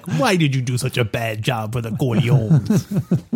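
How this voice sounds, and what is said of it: Imitated mobster character voice. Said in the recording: “That's my Tattaglia imitation.”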